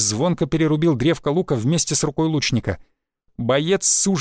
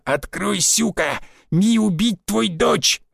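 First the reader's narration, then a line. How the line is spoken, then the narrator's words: Growl. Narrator (Russian): рычал он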